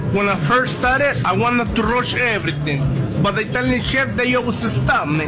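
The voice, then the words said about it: Italian-American accent. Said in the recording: “his accent now is literally an Italian-American. It's perfect. ... It's a perfect accent, man.”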